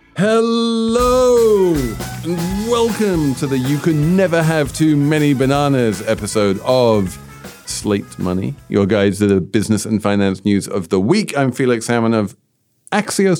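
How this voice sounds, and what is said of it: British accent. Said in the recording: “I have a British accent”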